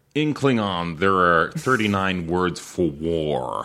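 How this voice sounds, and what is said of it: Put-on American accent. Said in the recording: “I love when people do American accents. ... That's a good American accent. ... It's not bad, but they all end up sounding like Liam Neeson.”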